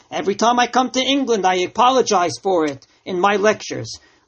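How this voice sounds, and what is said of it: New York American accent. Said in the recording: “It wasn't a proper English, and I'm not proud of my New York accent.”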